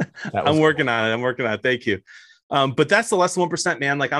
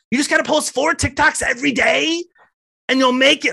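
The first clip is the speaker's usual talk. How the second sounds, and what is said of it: Imitates another person's voice. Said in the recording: “Dude, I love that impression... If Gary Vee sees this, I hope he shares it, because that was gold.”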